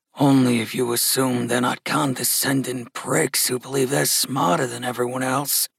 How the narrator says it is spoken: muttered Gus

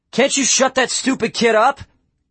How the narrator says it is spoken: Quinn yelled

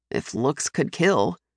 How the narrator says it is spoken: Hallis mutters, a hint of amusement in his voice

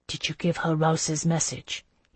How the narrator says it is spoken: he asked quietly

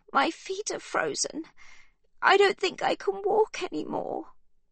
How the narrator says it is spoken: she sobs

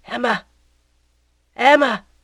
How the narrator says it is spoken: cried in a low voice

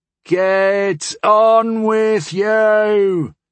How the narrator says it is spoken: shouted someone in the stands

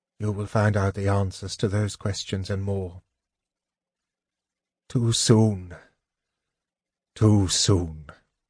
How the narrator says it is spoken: Gilthanas murmured

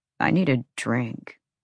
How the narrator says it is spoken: Declan muttered

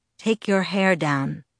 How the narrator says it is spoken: Edward said in a low, even voice

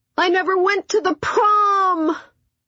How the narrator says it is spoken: he howled

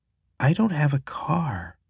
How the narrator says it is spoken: she says quietly

